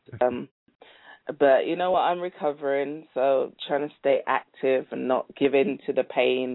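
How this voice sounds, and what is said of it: Congested, stuffy voice. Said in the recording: “You sound a little stopped up there. ... I got a cold.”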